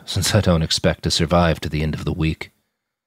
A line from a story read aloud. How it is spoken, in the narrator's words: said with a hollow laugh